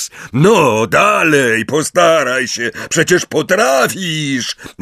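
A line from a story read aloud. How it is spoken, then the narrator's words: Roar echoing in stone hall. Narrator (Polish): ryknął, a jego głos potoczył się echem po kamiennej sali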